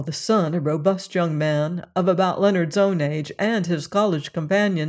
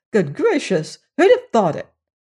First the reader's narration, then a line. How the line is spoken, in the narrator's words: His wife, an active little woman, exclaiming